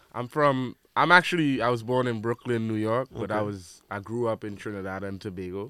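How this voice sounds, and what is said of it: Caribbean accent. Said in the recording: “I hear the accent ... Caribbean”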